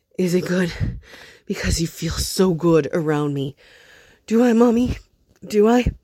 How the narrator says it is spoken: Eddie moaned too, said again

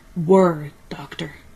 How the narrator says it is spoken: snapped Haraj, his resonant voice turning harsh

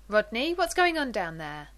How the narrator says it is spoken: Elizabeth asks sharply

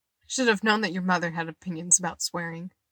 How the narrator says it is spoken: Eddie laughed

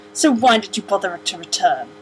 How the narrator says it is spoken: he spat

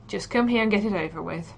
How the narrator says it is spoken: Pat sighs

